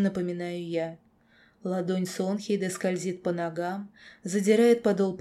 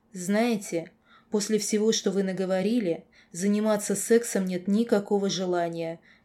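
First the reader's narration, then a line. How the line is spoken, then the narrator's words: Exclaiming. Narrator (Russian): воскликнула я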